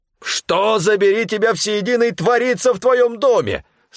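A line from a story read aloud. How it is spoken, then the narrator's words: Sudden yell. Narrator (Russian): сразу же заорал Стефан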